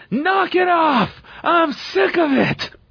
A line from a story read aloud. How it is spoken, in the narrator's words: he yells at Hunter